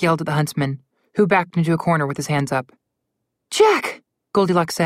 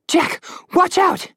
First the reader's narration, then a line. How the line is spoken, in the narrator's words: Goldilocks screamed